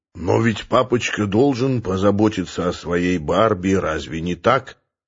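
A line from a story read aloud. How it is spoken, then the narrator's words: Low velvety rock-and-roll crooning. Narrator (Russian): пропел Сурен низким и бархатистым голосом какого-то рок-н-ролльного певца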